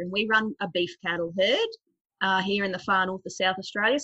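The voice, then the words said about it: Queensland Australian accent. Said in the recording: “moved over from Queensland, which explains a lot of my accent. I get a lot of flack from South Australians that I don't round my vowels correctly.”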